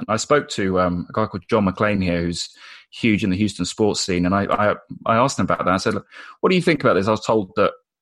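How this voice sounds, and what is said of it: British English accent. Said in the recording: “a lot of issues with my accent ... a British guy talking about American football”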